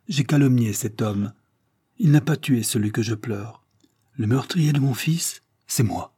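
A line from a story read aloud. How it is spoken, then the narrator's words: Firm voice. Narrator (French): dit-elle d'une voix ferme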